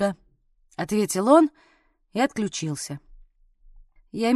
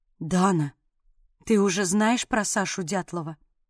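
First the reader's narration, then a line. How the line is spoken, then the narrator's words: Crushed, devastated voice. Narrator (Russian): убитым голосом произнесла Соня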